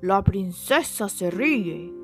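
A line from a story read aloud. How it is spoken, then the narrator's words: Exultant exclamation. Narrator (Spanish): exclamó el rey exultante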